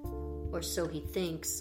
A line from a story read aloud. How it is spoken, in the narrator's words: murmured Polly